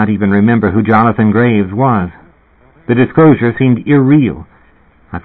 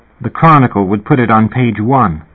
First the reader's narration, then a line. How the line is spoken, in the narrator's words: Kirsten said, in a solemn tone